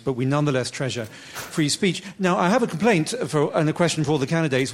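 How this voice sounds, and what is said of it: British accent. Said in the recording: “as you can probably hear from my accent, from a country without a First Amendment, actually without even a constitution in the first place”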